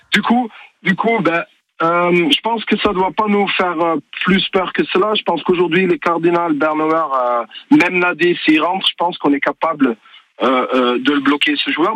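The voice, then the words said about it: Slight Belgian French accent. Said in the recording (French): “vous avez un petit accent belge ?”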